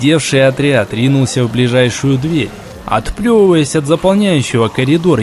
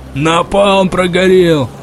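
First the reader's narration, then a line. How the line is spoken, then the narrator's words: Shouting from behind amid gunfire. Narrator (Russian): закричал кто-то сзади, сопровождая слова выстрелами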